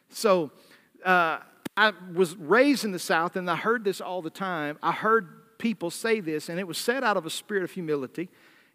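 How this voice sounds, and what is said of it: Southern US accent. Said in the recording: “I am from the South ... I hear that Southern accent.”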